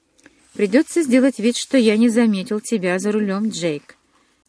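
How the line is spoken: Disapproving grumble. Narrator (Russian): неодобрительно проворчал Чарли

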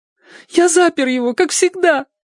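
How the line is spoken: Tearful justification. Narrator (Russian): Оправдывался сквозь слезы

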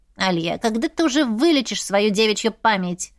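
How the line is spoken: Grumbling. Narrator (Russian): ворчал Сантовар

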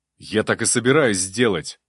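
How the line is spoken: Snapping while running. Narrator (Russian): набегу огрызнулся я

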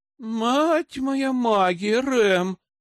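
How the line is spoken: Groaned. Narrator (Russian): простонала она

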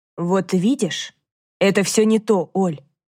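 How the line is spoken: Quiet. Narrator (Russian): тихо продолжила Дана

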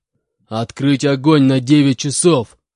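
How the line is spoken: Growled. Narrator (Russian): прорычал Буран

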